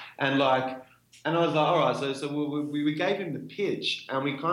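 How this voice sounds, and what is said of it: Usual voice. Nothing is said of it.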